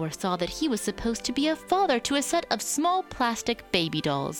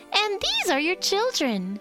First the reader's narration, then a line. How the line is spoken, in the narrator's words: the little girl exclaimed